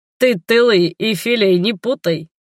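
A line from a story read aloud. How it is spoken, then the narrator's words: Laughing. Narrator (Russian): рассмеялся генерал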